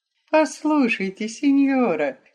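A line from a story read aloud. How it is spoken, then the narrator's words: Tender, deeply moved. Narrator (Russian): нежно проговорил, до глубины души взволнованный Веронец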